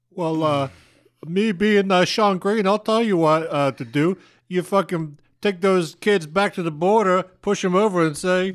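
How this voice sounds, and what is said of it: Imitates another person's voice. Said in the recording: “great Sean impression”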